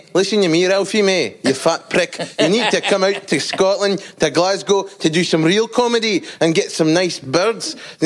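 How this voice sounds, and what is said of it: Good put-on Scottish accent. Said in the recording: “The semi-racist Scottish guy ... you do the accent so good.”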